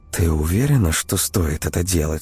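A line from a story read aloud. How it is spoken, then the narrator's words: Whispered question. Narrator (Russian): шепотом спросила Ксения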